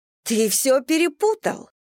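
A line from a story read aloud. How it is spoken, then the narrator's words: Exclaiming. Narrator (Russian): воскликнула Татьяна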